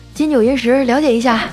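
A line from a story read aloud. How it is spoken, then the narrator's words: Cheerful grinning. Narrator (Chinese): 发传单的小哥 笑嘻嘻的 说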